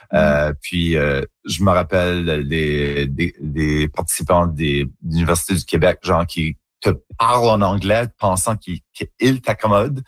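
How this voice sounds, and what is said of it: Acadian French accent, rounded and colorful. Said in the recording (French): “c'est juste mon accent en acadien. C'est comme ça qu'on parle... un accent un petit peu plus coloré, un petit peu plus arrondi”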